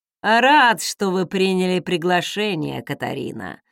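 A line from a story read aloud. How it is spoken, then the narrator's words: Mocking. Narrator (Russian): насмешливо проговорил Элайджа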